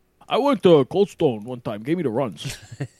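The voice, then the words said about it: Imitates another person's voice. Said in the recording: “Was that an impression of yourself? ... That was an impression of Peter Del Rey from a couple episodes ago.”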